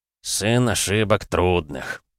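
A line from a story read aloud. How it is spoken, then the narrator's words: Grumbled. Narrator (Russian): проворчал Нюк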